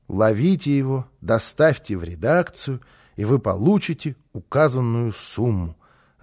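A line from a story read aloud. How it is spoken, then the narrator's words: Reading aloud, then sigh. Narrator (Russian): закончил он чтение и вздохнул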